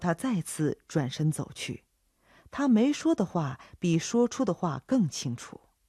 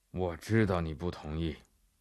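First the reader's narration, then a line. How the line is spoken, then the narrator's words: Flat, indifferent. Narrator (Chinese): 他淡淡地回答法比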